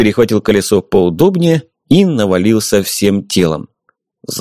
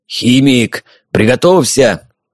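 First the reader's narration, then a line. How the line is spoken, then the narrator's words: Hoarse exhale. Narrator (Russian): Хрипло выдохнул Никита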